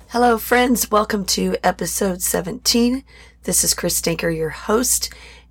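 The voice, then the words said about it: Raspy voice. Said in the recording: “my voice sounds a little different this week ... very raspy voiced”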